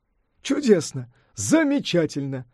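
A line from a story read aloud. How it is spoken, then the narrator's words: Delighted exclamation. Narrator (Russian): с восторгом воскликнул Сунь-Укун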